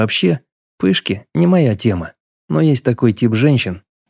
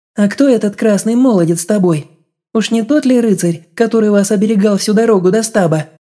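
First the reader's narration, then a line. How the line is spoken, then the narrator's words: Smiling melodious question. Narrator (Russian): Улыбнулась, спросила удивительно мелодичным голосом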